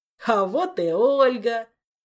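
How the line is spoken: Joyful roar. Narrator (Russian): обрадованно проревел кентавр

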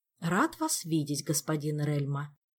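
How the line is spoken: Diplomatically polite tone. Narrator (Russian): дипломатически вежливым тоном произнес он

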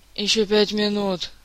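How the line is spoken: Sleepy mumble. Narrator (Russian): сонно пробормотала Ольга

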